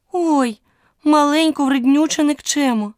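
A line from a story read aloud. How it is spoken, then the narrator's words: Exclaimed. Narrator (Ukrainian): вигукнула Аліса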